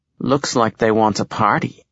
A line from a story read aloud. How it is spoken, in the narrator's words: Barry says